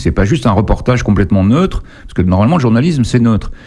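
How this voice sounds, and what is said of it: Parisian French accent. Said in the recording (French): “avec ton accent parigot”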